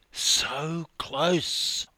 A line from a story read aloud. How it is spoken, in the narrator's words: I whispered